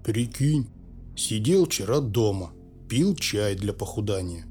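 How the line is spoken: Glum telling. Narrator (Russian): уныло поведал Пауль

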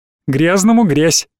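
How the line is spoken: Cheerful little bird. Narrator (Russian): весело сказал зяблик

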